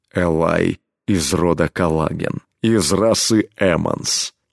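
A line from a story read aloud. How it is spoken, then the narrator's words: Low impassive steely voice. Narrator (Russian): ответил изменившимся низким бесстрастным голосом, в котором слышались стальные нотки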